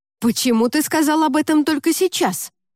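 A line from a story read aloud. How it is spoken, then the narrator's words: Heated exclamation. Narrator (Russian): запальчиво воскликнул Женька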